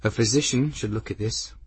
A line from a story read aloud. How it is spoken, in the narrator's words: Benedict said, his voice worried